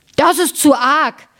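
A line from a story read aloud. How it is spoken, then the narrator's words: Frenzied scream. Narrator (German): schrie der, sprang wie ein Unsinniger auf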